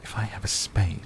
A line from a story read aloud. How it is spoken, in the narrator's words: she whispered